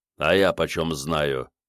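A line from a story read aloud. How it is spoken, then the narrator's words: Deep bass voice. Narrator (Russian): забасил бородатый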